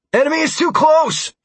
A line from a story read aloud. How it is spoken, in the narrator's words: shouted the pilot on the other end of the radio